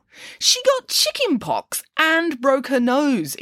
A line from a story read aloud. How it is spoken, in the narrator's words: exclaimed Nanny Piggins